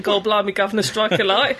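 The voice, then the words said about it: Mock imitation of another's accent. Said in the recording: “taking out my accent? ... we can insult you if you like ... if you're going to insult me, say it properly”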